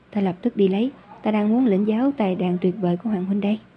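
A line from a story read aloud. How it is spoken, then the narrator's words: Smiling. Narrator (Vietnamese): Nhiếp Hy mỉm cười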